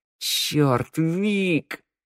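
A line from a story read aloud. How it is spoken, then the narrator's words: Inner roar, young woman. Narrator (Russian): мысленно взревела девушка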